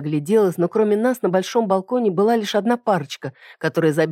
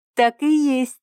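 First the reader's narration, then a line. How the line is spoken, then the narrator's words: Joyful small nymph. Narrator (Russian): радостно кивнула маленькая нимфа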